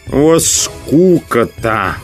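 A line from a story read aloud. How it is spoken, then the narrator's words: Grumbling. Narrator (Russian): проворчал Рыжий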